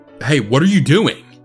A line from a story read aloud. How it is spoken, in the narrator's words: a man's voice yell out behind me